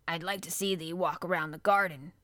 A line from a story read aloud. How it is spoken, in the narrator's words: grunted Bin